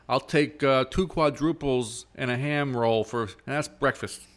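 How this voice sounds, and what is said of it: Put-on Brooklyn New York accent. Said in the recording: “Why is he from Brooklyn all of a sudden? ... I'm doing the Bonham impression. I feel like I'm doing a New York impression.”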